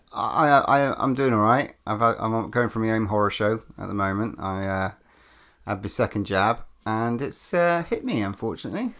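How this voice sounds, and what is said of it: Groggy, croaky voice. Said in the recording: “You sound a bit groggy. ... a bit croaky”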